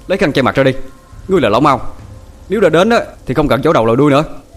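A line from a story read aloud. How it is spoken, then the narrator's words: Angry. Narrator (Vietnamese): tức giận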